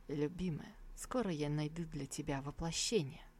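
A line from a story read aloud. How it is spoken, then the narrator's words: Inaudible whisper. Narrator (Russian): пересохшие от волнения губы ... неслышно шепнул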